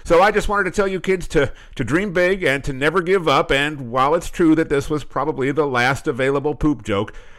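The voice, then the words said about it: Polished radio announcer voice. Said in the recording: “that guy's radio voice was unbelievable ... I thought we were about to get traffic on the 10s”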